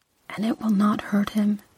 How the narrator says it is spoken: she whispered

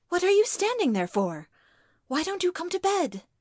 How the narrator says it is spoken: Marston seems to have lost his head and blurted it out

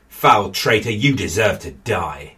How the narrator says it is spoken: John snarled

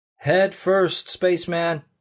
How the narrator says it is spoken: one of the guys shouted

